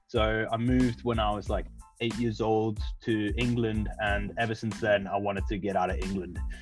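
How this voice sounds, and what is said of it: South African accent. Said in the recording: “I don't know if you can tell from my accent, I'm from South Africa.”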